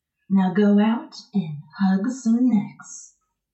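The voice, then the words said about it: Creepy put-on radio voice. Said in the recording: “radio voice ... Appropriately creepy.”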